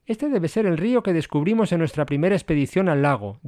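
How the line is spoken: Plain. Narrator (Spanish): dijo Donifán

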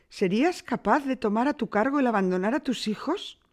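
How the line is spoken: Woodcutter's wife exclaims. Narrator (Spanish): exclamó la leñadora

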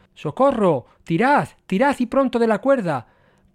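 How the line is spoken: Desperate shout before vanishing. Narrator (Spanish): pudo gritar antes de desaparecer

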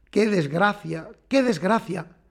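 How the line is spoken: Harsh, dry, trembling, pained. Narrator (Spanish): Resoplaba de dolor, exasperado, trémulo, repitiendo con la voz áspera y seca

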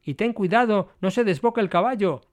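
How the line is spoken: Exclamation. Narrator (Spanish): exclamó Service

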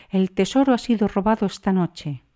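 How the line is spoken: Exclamation. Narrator (Spanish): exclamó

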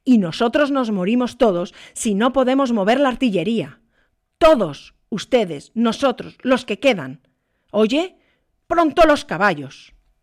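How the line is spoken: Nervous, exhausted officer shouting. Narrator (Spanish): El oficial, nervioso, demacrado por un mes de batallar sin tregua ni descanso, gritó a su vez

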